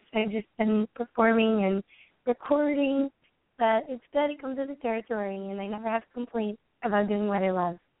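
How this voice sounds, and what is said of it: Slightly hoarse, sung-out voice. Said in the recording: “her voice has been sung out ... my voice is a little hoarse.”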